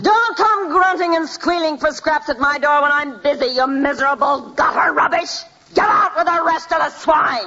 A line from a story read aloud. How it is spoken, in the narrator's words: the innkeeper's wife screamed